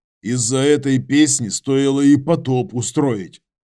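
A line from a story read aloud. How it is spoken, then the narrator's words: Grumbled. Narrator (Russian): проворчал Юра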